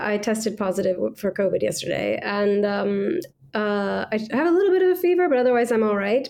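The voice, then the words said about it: Voice sounds sick. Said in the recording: “as you might hear from my voice”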